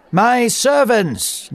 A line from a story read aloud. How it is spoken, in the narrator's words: Nebuchadnezzar shouted